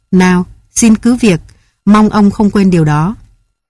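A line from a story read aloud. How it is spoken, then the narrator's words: Cold reply. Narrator (Vietnamese): Nàng đáp lạnh lùng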